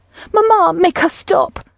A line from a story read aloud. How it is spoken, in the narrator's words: May cried out, burying her face in mother's shoulder